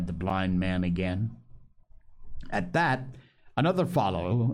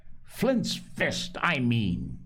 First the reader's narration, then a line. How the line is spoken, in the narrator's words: he cried